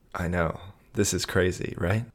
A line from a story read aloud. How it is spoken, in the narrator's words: he whispered